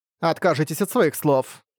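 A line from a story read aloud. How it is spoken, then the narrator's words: Sharp objection. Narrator (Russian): резким тоном возразила Карла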